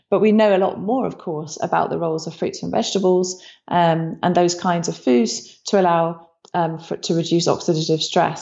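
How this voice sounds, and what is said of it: Soothing British accent. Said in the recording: “combined with the British accent, I was oh, I'm watching Discovery Channel. ... It's so soothing.”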